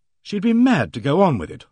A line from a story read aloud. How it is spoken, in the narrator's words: I exclaimed